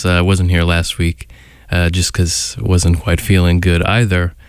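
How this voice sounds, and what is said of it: Sick-sounding voice. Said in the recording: “Feeling a little sick today, if you can hear it in my voice”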